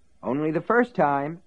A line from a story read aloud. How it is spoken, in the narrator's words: Ace assured him happily